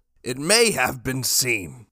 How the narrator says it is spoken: Jackson said, slurring his words

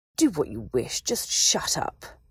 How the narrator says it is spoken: Malfoy said, his tone vicious

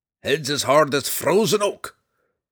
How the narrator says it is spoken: grumbled the dwarf

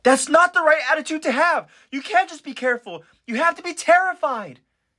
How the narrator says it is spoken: Sasha, she now screams even louder

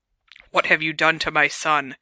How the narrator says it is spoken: he said in a menacing growl

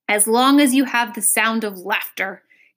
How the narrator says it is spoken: groaned unhappily

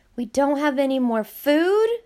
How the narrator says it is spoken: Nina gasped

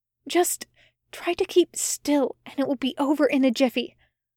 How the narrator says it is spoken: Aziraphale whispered with an assurance he didn't feel

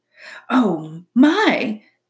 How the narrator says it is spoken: the opossum gasped

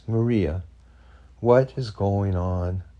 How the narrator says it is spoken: She asked again, but this time in a softer and calmer tone of voice

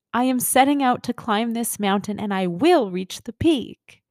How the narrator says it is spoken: the soul exclaims

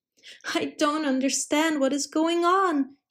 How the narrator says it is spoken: cried desperately

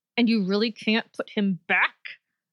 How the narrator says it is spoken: Nejma asked through gritted teeth

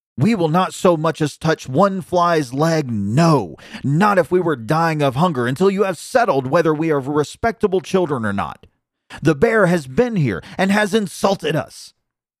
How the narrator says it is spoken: The young willow wrens, however, continued to cry and scream, and when their parents again brought food, they said

